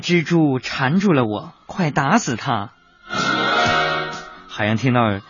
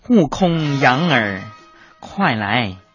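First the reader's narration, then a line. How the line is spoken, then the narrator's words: Sighing. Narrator (Chinese): 唐僧叹气道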